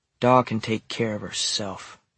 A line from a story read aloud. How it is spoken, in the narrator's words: she muttered